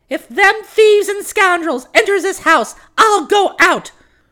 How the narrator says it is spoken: she fairly screamed in her shrill voice

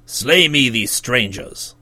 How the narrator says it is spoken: exclaimed the king in his gruffest voice

